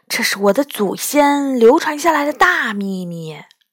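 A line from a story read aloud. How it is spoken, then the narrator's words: Unhappy, lowered voice. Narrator (Chinese): 馒头不高兴地压低了声音说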